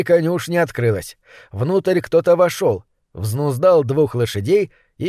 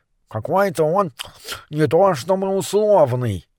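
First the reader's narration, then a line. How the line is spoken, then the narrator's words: Mumbling with full mouth. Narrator (Russian): пробурчал Морис с набитым ртом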